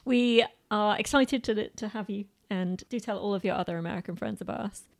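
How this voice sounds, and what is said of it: British accent. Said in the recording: “our charming British accent”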